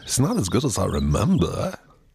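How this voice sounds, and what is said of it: Imitates another person's voice. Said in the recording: “How about that accent? Christopher Walken?”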